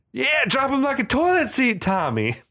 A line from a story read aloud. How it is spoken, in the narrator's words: Travis yelling